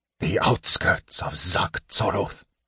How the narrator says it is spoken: Raistlin breathed

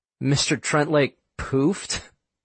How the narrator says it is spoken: said Quinn, with a suppressed giggle in his voice

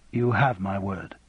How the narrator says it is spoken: said Raymond quietly

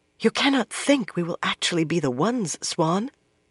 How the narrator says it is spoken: Moiraine whispered

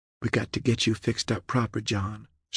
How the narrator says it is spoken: she whispered

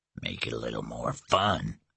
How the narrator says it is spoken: he grunted

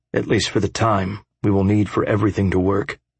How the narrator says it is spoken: I sighed

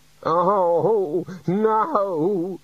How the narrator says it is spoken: the senior wrangler moaned

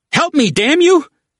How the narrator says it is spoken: cried

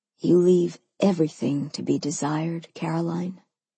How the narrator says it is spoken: he said softly

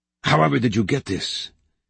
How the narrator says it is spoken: exclaimed Sonemon

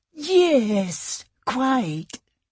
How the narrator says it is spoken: cooed the noodle-necked woman

